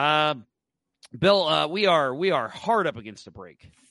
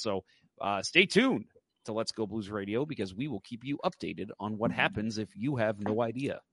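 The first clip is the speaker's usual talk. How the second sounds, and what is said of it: Radio announcer voice. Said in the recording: “That's my uh, that's my radio voice right there.”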